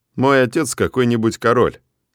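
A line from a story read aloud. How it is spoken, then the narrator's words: Dry reply. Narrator (Russian): сухо отвечаю я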